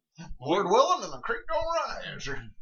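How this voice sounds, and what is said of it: Old-timey gold prospector voice. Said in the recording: “the voice you gave God was that of an old timey gold prospector”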